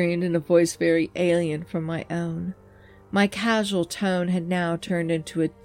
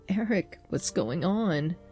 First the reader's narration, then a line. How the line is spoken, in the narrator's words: asked, his voice trembling